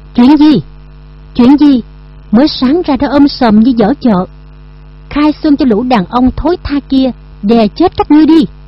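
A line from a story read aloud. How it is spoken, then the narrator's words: Loud scolding. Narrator (Vietnamese): lớn tiếng quát nạt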